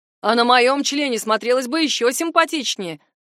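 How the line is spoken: Second man chiming in. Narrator (Russian): подхватил второй

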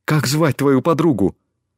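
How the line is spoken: Agitated question, male. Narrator (Russian): Взволнованно спросил он

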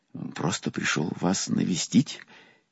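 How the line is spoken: Frightened babbling. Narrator (Russian): испуганно пролепетал я

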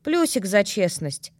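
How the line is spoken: Amused snort. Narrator (Russian): хмыкнула я, даже не рассердившись

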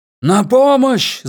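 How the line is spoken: Wolf wailing. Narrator (Russian): завопил волк

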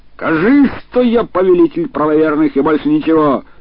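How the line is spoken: Yelling. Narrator (Russian): Абуль-Хасан орал

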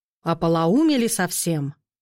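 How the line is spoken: Menacing growl. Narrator (Russian): рыкнул колдун зимний так грозно

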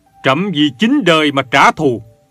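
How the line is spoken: Roaring with grief and rage. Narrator (Vietnamese): Gia Long gầm lớn với tất cả bi phẫn

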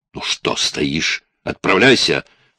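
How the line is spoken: Loud barked shout. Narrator (Russian): гаркнул Рори

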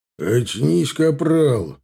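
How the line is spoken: Barked. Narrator (Russian): рявкнул Милар

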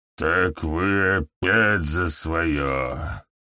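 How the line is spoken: Hoarse wheeze. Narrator (Russian): прохрипел он

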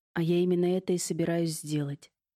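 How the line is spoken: Calm. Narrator (Russian): спокойно ответил Аркадий

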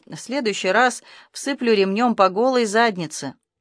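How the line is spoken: Grim promise. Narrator (Russian): Арбуз мрачно пообещал

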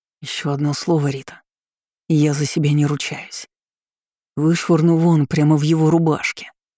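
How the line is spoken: Growl. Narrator (Russian): прорычал Артём

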